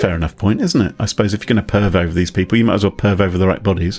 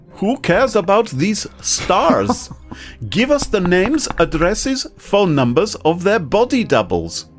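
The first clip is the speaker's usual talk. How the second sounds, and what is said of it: Put-on German accent. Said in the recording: “Shall I do it in a German accent?”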